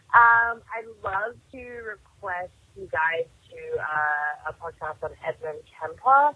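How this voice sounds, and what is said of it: Australian accent. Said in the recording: “I love that Australian accent.”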